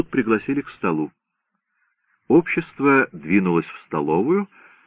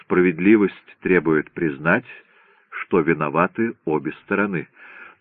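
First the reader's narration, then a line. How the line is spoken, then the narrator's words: Pointedly calm remark. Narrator (Russian): Адвокат Хансен подчеркнуто спокойно заметил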